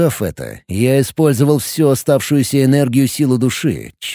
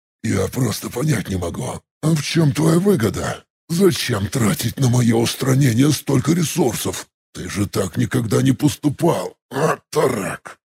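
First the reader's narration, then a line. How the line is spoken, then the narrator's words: Strained hiss. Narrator (Russian): С трудом прошипел я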